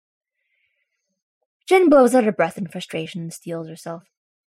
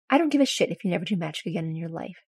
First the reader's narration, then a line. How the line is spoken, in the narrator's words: she says firmly